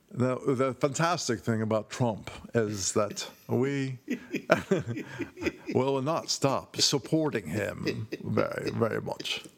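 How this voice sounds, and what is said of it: Imitates another person's voice. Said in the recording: “I will never stop, by the way, until my voice sounds exactly like Sebastian Gorka. ... How does he say?”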